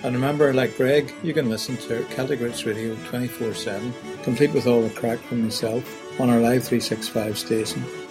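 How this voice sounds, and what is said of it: Irish accent. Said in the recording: “The narrator has a lovely Irish brogue ... your discussion of Irish accents is on target. I understand about 60% of what you're saying”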